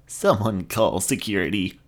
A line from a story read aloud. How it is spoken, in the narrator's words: croaked